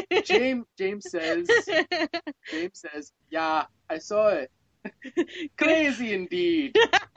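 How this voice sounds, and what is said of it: Put-on Irish accent sounding Jamaican. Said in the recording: “Irish accent ... Lucky Charms accent ... Is that the Jamaican Irish accent? ... Jamaican.”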